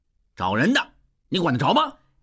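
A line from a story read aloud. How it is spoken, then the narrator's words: Loud insistent yelling. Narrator (Chinese): 坚持要闯进去，大声嚷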